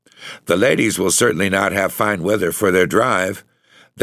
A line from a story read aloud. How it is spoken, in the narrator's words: Lieutenant Fritz said, with a laugh